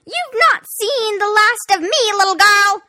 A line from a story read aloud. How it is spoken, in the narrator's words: screeched the queen